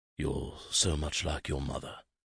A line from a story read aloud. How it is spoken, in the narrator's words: he murmured